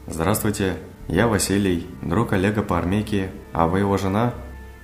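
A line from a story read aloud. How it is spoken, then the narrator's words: Cheerful voice. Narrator (Russian): Бодрым голосом начинал Василий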